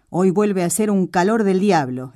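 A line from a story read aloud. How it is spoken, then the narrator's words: Complaining exclamation. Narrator (Spanish): exclamó quejoso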